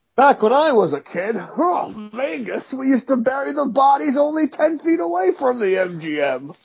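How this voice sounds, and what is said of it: Imitates another person's voice. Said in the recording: “That was not my Johnny Thompson impression”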